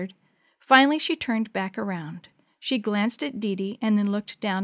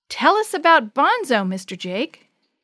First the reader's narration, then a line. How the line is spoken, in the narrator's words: Suddenly, Sammy called out